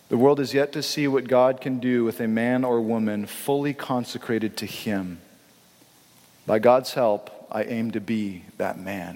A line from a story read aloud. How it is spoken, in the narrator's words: he says